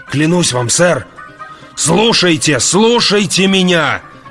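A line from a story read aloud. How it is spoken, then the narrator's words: Yelling. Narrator (Russian): Заорал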